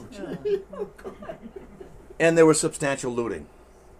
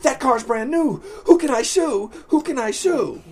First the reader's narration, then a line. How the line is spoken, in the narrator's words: a man on Long Island frantically saying